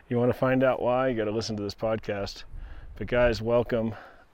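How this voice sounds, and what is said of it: Out of breath, panting speech. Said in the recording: “I'm out of breath.”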